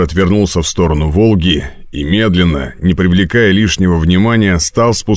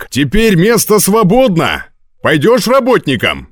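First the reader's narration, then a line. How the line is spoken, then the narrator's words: Shout. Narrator (Russian): закричал он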